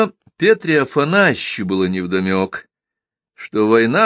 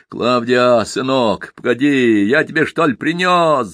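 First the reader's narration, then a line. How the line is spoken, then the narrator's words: Shouting. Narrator (Russian): закричал Петра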